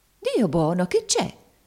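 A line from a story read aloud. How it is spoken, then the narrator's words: Exclaimed. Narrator (Italian): esclamò la zia Chloe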